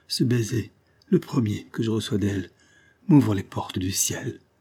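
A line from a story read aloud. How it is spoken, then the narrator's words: Faint, failing voice. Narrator (French): dit le comte de Blamont d'une voix défaillante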